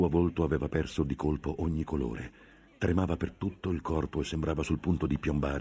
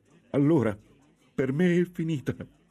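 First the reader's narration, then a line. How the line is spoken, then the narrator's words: Sobbing in despair. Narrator (Italian): singhiozzò la monaca, disperata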